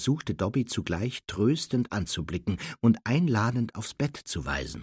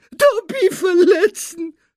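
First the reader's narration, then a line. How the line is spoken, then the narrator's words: Elf sobbing. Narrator (German): schluchzte der Elf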